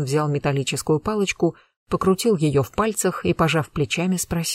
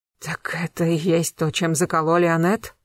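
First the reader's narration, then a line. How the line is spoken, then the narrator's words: Strained wheezing voice. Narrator (Russian): не своим голосом просипел Зорин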